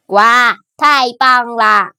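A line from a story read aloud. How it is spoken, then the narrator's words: Loud, excited. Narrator (Chinese): 弗洛格大声说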